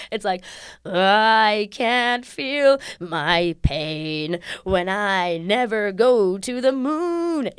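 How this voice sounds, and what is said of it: Sings wandering up-and-down melody. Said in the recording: “this is what every Dave Malloy song sounds like... a bunch of, like, up and down... Gorgeous, opulent sounds, but it's just sounds”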